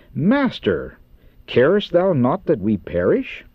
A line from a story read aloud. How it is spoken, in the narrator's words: In amazement and despair, they exclaim